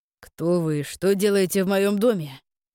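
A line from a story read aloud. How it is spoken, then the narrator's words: Growled. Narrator (Russian): прорычал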